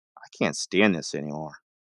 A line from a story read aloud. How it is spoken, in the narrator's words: Kate whispered to Jim